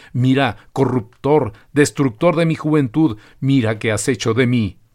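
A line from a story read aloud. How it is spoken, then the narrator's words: Howling teenager. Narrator (Spanish): un adolescente aullaba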